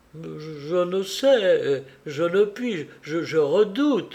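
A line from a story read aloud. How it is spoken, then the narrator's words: Stammering. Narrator (French): balbutiait-elle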